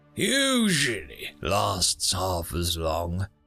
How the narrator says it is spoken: said gloomily

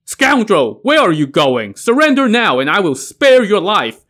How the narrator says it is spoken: shouted

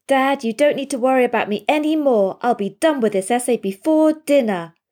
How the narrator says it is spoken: exclaims victorious

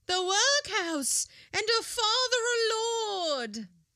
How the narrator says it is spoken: she exclaimed in her maternal pride

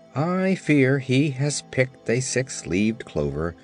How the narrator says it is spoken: answered the Shaggy Man sadly

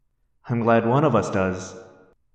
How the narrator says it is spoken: I said nervously

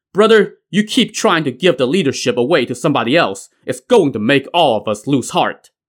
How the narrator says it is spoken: Wu Song the Pilgrim, who also shouted

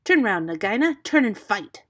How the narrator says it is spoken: Rikki Tikki cried

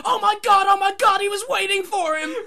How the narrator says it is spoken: Mark Madden screams

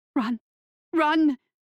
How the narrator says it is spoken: her mind cried

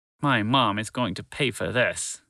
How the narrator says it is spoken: Bill muttered under his breath

